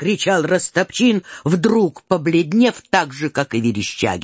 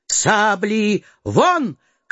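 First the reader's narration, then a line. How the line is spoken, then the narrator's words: Shouted command. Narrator (Russian): крикнул офицер драгуном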